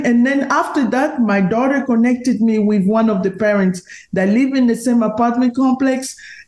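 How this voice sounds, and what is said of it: Strong foreign accent. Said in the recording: “everybody can hear my accent is even stronger than Gilbert”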